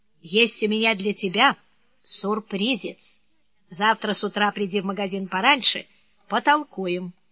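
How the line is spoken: Quiet. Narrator (Russian): сказал ему негромко

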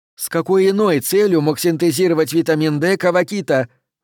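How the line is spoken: Exclaiming. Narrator (Russian): выкрикнула она

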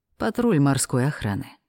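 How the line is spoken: Quick dragon's voice. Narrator (Russian): вмиг определил дракон

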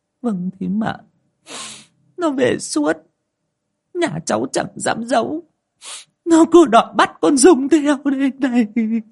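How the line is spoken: Tearful, choked. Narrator (Vietnamese): Bà nối lau nước mắt nghẹn ngào

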